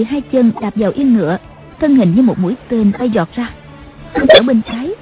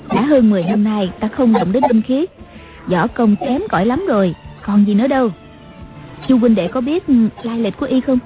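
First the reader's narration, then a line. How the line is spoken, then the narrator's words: Smiling. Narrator (Vietnamese): Ngọc Hư Tản Nhân mỉm cười nói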